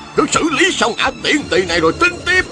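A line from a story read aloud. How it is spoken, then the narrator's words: Shouting. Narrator (Vietnamese): Đạo nhân râu dài la lên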